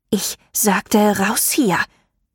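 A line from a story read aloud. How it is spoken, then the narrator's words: Angry hiss. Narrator (German): fauchte Ruth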